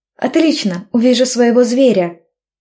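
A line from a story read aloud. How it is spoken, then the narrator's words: Squealing with joy. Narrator (Russian): завизжала я от радости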